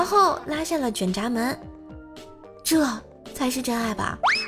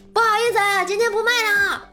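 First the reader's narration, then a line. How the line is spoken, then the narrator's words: Prompt shout backward. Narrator (Chinese): 男生没有一秒的迟疑，冲后面喊了一句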